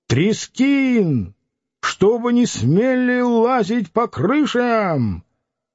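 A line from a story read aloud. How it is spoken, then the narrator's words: Commanding shout. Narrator (Russian): Чей-то командующий голос крикнул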